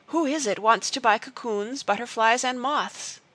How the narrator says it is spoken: she panted

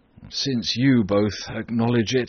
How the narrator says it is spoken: sighed Socrates

